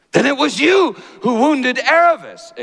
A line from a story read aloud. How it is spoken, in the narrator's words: exclaimed Shasta